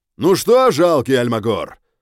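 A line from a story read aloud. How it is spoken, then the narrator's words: Shouted skyward. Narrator (Russian): крикнул в небо мужчина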